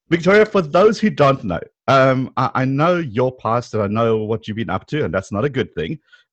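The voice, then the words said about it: South African accent. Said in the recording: “your amazing South African accent”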